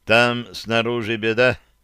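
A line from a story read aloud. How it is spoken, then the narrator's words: Dry. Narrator (Russian): сухо донес до нас Михаил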